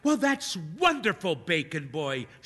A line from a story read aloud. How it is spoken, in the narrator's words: she exclaims